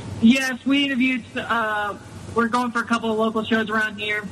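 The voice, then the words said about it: Tennessee accent. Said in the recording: “I love his Tennessee accent ... You have a great accent”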